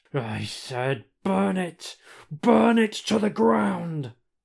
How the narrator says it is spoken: snarls Judge Dredd

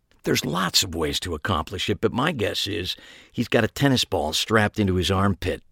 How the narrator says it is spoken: I whispered back

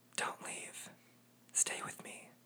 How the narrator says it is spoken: in a thrust of passion, he leans over my body and whispers in my ear

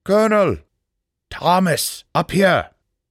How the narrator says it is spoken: a voice called out

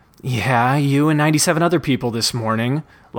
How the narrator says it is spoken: Lyman moaned

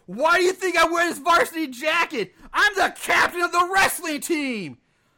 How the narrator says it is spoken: Brent then taunts the Ranger, saying

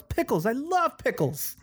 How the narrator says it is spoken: One child yells

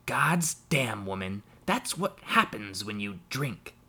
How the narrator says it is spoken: Jem snapped

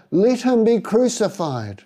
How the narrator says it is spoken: they shouted all the louder

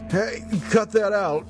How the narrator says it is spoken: shout

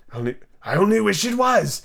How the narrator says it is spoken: the Marchese said to itself in a whisper

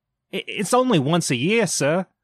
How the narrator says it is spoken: pleaded Bob

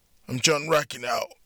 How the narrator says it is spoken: John said in a hoarse voice

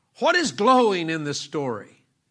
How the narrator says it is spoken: a few people shouted out

